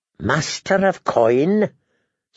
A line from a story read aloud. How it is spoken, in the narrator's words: said Tyrion, in a thin, strained voice